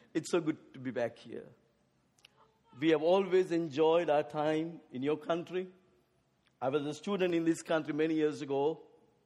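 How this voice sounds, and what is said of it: English with an Asian accent. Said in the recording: “I speak English with an Asian accent.”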